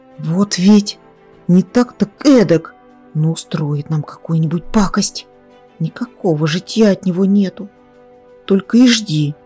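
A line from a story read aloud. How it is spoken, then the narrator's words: Desperate whisper. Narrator (Russian): отчаянно зашептал Зарубик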